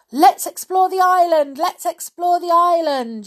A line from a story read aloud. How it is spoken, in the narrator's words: yelled Anne